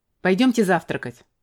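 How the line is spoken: Sharp. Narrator (Russian): сказал резко

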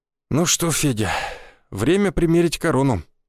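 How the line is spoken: Tired, smiling. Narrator (Russian): устало улыбнулся я

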